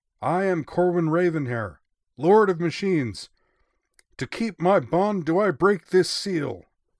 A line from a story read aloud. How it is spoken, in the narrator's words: With gritted teeth, shouted